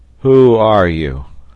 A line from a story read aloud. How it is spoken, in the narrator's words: in a hollow voice